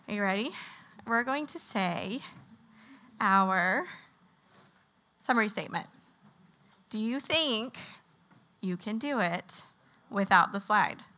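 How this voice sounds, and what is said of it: Strained, fading voice. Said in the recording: “I'm a seasonal allergy sufferer and my voice is on its way out. So if I am sipping, it's so I can keep talking to you.”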